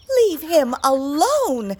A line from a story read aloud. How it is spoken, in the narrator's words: she said fiercely